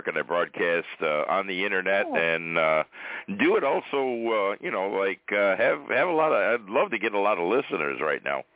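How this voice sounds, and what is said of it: Rich radio-announcer voice. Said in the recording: “you got a fantastic radio voice.”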